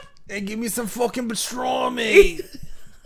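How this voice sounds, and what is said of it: Put-on New York accent. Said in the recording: “I'm a New Yorker now... I come back with an accent.”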